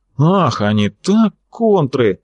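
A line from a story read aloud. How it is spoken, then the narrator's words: Hoarse wheeze. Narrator (Russian): просипел товарищ Чудов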